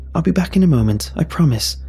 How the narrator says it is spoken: I exclaimed to her

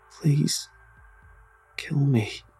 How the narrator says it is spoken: begged in a voice barely above a whisper

